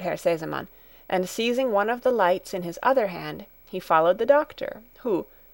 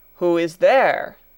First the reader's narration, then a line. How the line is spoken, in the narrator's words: thundered the doctor, in a voice that echoed through the hall